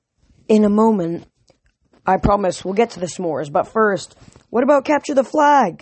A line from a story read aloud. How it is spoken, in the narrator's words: Somebody yelled